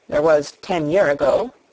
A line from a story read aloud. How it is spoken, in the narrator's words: he mumbled